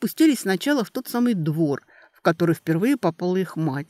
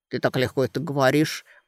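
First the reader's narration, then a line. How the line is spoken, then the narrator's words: Brother muttering. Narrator (Russian): пробормотал брат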